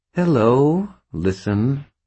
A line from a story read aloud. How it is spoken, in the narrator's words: the gray ghost replied, her tone sour